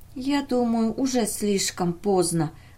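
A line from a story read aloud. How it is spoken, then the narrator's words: Whispering. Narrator (Russian): прошептала Мэри Торн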